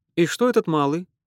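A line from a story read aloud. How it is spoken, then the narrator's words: Plain. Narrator (Russian): спросил племянник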